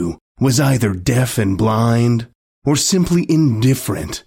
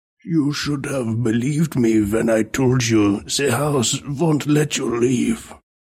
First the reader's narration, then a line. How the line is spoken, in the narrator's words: the man said coldly, meekly